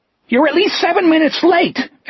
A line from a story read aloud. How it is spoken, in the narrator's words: Etheridge screeched at him